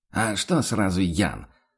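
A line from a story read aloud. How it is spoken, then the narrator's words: Snapping retort. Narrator (Russian): огрызнулся охотник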